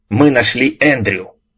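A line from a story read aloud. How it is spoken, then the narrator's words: Shouting. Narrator (Russian): закричал Ральф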